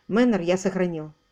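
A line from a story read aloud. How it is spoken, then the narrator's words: Curt. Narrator (Russian): Он отрывисто произнес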